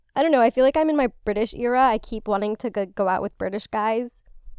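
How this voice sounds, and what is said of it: Usual voice. Nothing is said of it.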